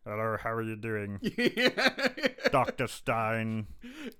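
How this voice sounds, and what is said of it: Imitates a film character's odd voice. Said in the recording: “I also love Malcolm's voice... Man, his voice is just... It's almost like he's trying to do like a bad impersonation of the guy from Rocky Horror... Riff Raff... It's like he's trying to do a black Riff Raff or something.”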